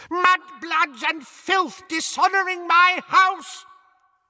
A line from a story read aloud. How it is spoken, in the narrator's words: she began to scream